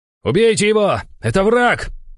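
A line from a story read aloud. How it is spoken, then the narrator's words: Shouted command. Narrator (Russian): выкрикнул командир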